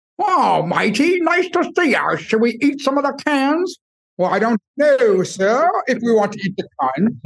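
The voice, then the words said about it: Goat character voice, weird accent. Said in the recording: “one goat talking to the other and taking on an accent ... In weird accents, though.”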